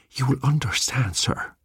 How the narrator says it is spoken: breathed the old man

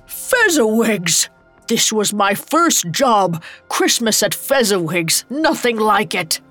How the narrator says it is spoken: A familiar laugh roared over the music

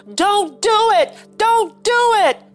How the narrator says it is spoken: George was screaming now

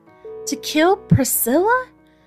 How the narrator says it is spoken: gasped Minty

